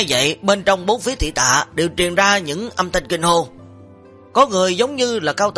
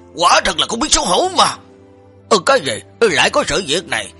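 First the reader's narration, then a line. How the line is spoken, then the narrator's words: Angry shout. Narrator (Vietnamese): tên tu sĩ tên là Đạt Hệ Toán lúc này tức giận quát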